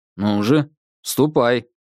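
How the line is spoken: Stern command. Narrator (Russian): строго велел я

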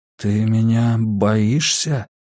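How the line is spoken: Trembling voice question. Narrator (Russian): дрогнувшим голосом спросил он

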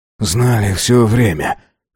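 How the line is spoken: Hoarse voice. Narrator (Russian): хрипло произнес Авардан

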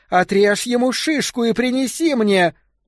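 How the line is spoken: Woman screaming. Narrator (Russian): женщина, скорее всего, Петра, завопила

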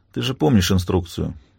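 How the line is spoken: Tired remark. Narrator (Russian): устало замечает

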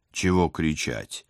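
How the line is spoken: Gloomy questioning. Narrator (Russian): мрачно уточнил я

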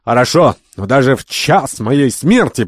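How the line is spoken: Overly loud. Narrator (Russian): проговорил Керабан чересчур громким голосом

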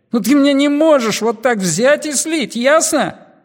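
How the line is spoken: Yelling. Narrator (Russian): вопил Гоша

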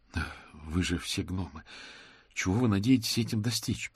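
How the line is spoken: Moaning. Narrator (Russian): простонал мокрец

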